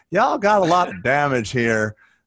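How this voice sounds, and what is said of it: Put-on Southern US accent. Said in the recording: “You're like trying to put on a Bruce Baird Southern accent.”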